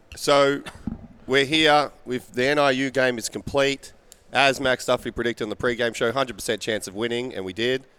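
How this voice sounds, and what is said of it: Hoarse voice from a cold. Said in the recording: “My voice is a little messed up again, I must admit. Still pretty messed up. Ryan Lemon, I think, might have given me his cold.”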